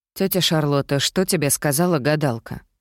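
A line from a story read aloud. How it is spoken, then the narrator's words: Plain. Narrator (Russian): спросила я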